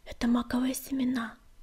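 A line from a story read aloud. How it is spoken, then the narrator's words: Quiet. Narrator (Russian): тихо проговорила она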